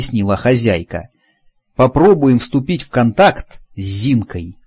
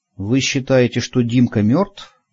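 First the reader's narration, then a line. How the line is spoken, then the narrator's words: Quiet question. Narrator (Russian): тихо спросил я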